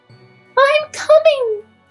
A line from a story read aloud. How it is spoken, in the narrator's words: cried Tiny Tina